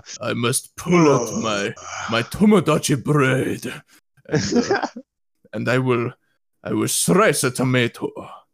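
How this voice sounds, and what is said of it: Stereotyped Japanese accent impression. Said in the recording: “my horribly, horribly inappropriate Asian impersonation ... the stereotype Japanese thing”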